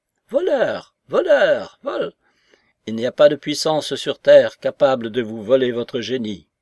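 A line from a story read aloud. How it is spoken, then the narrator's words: Domineering shout. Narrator (French): cria Pierre Ivanovitch d'une voix dominatrice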